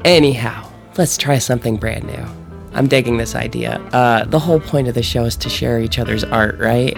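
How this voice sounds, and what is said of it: Low husky late-night radio voice. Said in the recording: “I'm talking in like late night sexy radio voice. I am actually getting over a cold ... talk in your sexy, I have a cold voice.”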